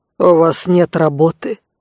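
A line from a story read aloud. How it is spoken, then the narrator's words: Menacing question. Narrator (Russian): грозно поинтересовался конт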